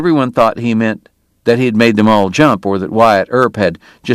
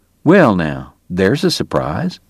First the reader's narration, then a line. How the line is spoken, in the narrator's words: Doc murmured